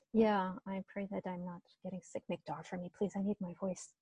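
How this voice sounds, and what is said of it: Croaky voice. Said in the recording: “my voice is a little bit croaky over the last few days”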